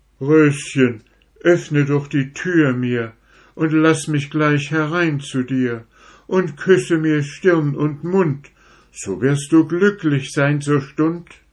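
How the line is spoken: Pleading voice. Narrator (German): Der Ziegenbock ... sprach er mit flehender Stimme

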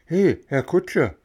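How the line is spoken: Calling out. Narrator (German): rief Bengele

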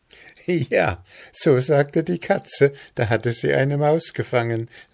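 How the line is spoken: Laughing girl. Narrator (German): lachte das Mädchen

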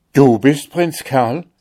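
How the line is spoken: Joyful old emperor calling. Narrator (German): rief der alte Kaiser voll Freuden

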